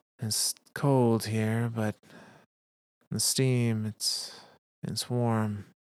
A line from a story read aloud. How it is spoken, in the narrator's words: she said weakly